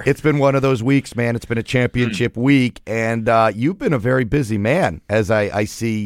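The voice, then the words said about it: Hoarse, strained voice. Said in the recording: “As you can hear, I am losing my voice.”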